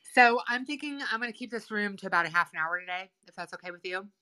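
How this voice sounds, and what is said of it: Sore throat voice. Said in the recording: “My throat is sore. ... I have a sore throat.”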